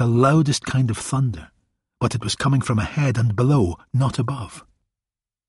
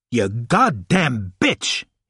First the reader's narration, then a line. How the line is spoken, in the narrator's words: bellowed